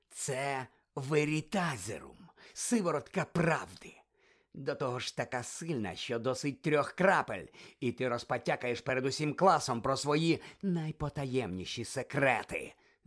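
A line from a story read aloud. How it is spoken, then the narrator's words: Vicious snarl. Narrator (Ukrainian): злісно прогарчав Снейп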